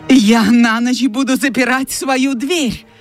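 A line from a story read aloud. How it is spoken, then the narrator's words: Exclaiming. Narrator (Russian): воскликнула Скарлетт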